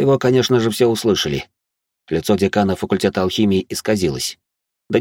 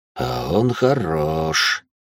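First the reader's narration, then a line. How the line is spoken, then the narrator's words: Quiet, to himself. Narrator (Russian): тихо произнес Харсот сам для себя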